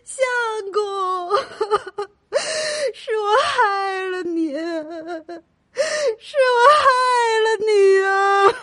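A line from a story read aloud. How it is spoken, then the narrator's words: Sobbing loudly. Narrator (Chinese): 忍不住大哭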